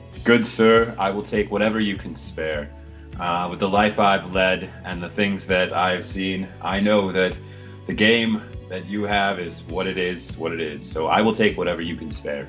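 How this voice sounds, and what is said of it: Character voice with odd accent. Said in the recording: “What the fuck is that accent?”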